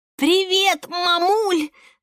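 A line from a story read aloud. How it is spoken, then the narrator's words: Fake hoarse rasp. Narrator (Russian): наигранно прохрипела Ника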